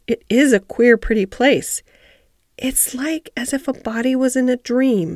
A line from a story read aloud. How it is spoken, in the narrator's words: almost whispered